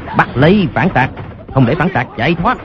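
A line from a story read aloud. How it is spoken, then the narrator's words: Soldiers shouting in unison. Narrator (Vietnamese): đám quân sĩ nhất tề quát lớn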